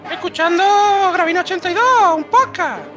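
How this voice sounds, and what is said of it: Exaggerated effeminate put-on voice. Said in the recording (Spanish): “poner la voz de maricona”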